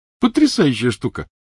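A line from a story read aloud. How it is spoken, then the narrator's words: Happy, smiling. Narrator (Russian): сказал Невилл, радостно улыбаясь Гермионе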